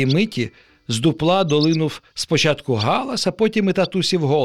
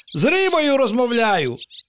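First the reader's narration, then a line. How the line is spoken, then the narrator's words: Chatterbox exclaiming. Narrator (Ukrainian): вигукнув пустомелик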